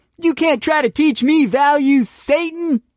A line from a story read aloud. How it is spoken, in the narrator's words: Tom screamed